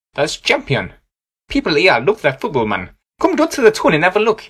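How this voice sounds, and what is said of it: Geordie Newcastle accent, sing-song intonation. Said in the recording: “Going for the north like with Vish Newcastle ... The accent is known as Jude and has interest in intonation patterns”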